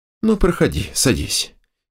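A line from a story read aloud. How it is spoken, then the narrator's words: Quiet. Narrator (Russian): негромко произнес он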